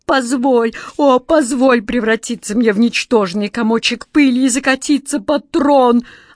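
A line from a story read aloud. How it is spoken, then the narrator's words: Desperate wail. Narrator (Russian): отчаянно взвыл Джин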